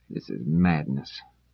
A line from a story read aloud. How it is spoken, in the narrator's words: Davin buried his head in his hands and muttered